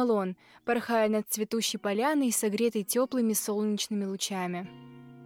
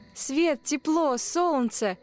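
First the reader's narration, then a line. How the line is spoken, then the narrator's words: Exclaiming. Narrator (Russian): воскликнул мотылек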